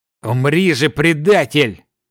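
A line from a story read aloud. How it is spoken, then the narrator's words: Silent inner growl. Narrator (Russian): мысленно рычал 13-й сын Неогалы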